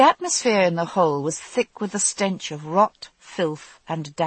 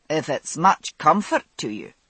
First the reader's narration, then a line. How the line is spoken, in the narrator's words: she said dryly